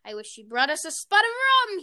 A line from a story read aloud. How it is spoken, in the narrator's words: cried enthusiastically